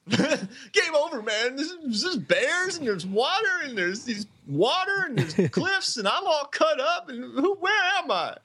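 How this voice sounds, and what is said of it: Impression of Hudson, Kentucky-like accent. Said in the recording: “Is Hudson from like Kentucky? ... I don't even know where that accent went. I think I had it pretty good.”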